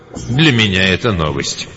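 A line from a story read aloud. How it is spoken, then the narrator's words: Sighing. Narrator (Russian): Скива вздохнул и сказал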